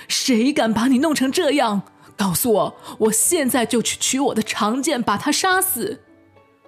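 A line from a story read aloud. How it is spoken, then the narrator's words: Roaring. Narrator (Chinese): 巨人吼道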